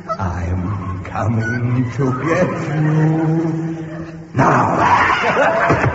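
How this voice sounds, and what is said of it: Spooky voice. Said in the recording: “that spooky voice”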